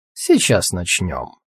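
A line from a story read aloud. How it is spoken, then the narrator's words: Plain. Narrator (Russian): сказал тот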